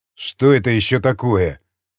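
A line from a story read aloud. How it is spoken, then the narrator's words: Leader muttering. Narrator (Russian): пробормотал атаман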